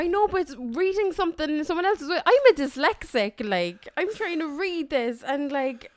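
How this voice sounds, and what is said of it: Usual voice. Nothing is said of it.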